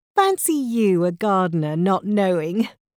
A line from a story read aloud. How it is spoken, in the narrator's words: laughed, but not unkindly